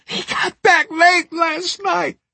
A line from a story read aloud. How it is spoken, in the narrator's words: screamed